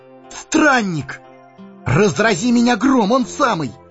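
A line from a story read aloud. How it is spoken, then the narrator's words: Joyful exclamation. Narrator (Russian): Сэмми радостно воскликнул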